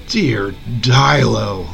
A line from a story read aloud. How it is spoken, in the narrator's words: the adventurer scoffed